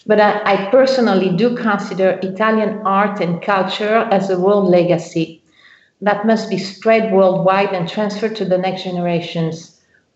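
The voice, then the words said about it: Non-Italian foreign accent. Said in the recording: “as you can guess by my accent, I'm not Italian”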